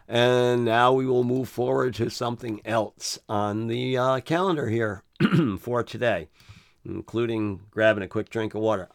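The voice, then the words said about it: Slightly hoarse, tired voice. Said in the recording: “I am a little hoarse. ... I'm a little spoken out”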